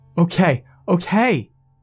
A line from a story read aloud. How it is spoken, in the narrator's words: I shouted